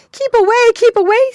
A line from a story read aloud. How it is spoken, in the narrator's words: screamed the other two